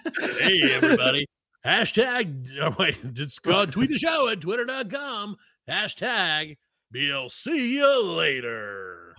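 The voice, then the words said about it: Radio announcer voice. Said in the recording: “Use your radio voice for that.”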